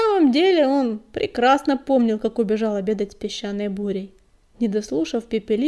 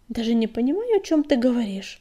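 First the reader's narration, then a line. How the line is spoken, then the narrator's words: Embarrassed mumble. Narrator (Russian): смущенно промямлил Огнегрив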